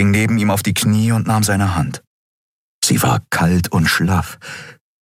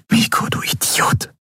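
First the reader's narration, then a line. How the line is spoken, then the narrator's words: Whispered. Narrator (German): flüsterte sie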